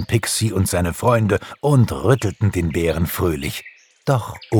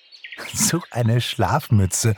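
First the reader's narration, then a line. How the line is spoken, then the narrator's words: Giggling. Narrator (German): kicherte Pixie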